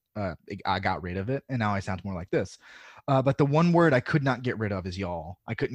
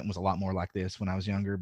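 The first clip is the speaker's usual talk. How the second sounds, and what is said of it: Strong Southern drawl. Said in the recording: “my Southern accent ... stop saying things with a specific drawl”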